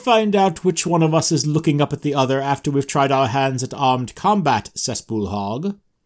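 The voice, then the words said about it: Annoying young man character voice. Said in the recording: “The voice for Thord ... it's terribly annoying ... his voice will have dropped an octave ... that's your impression of what a young man sounds like ... It's my impression of what this young man sounds like”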